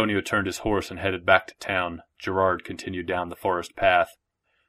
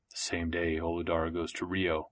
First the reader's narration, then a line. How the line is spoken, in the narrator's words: said Gerard under his breath